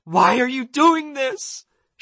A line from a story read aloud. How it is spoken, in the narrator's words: she screamed